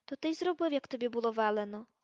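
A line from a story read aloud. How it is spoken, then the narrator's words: Gentle. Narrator (Ukrainian): лагідно промовила Герміона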